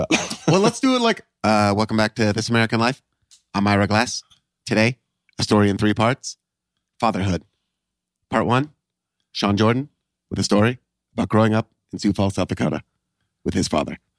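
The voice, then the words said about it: Ira Glass impression with pauses. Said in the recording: “good Ira Glass impression ... I think it's an okay Ira Glass impression ... That one's pretty solid ... It's the pauses guy. That sell it. You know, it's almost like an Obama impression.”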